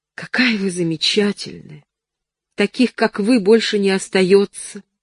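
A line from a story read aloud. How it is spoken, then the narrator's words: Exclamation. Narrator (Russian): воскликнула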